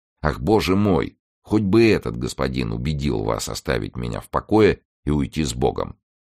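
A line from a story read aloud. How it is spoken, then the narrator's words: Calm, polished society tone. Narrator (Russian): дама спокойно и очень по-светски произнесла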